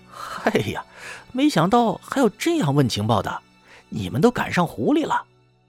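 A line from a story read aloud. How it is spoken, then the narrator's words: Silly laugh. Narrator (Chinese): 宋谦傻笑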